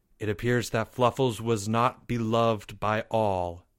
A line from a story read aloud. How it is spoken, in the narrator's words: he said softly